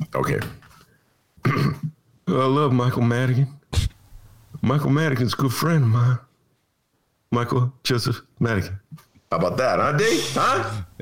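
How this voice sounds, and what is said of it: Bill Clinton impression. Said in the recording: “we can't mention Bill Clinton without you doing that stellar impression”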